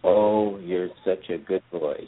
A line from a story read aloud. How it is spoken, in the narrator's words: she said